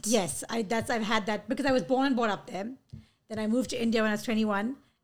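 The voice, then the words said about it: South African-sounding accent. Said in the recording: “You have a very South African-esque accent.”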